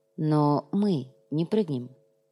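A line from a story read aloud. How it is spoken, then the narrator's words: Quiet. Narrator (Russian): негромко произнес Сантьяго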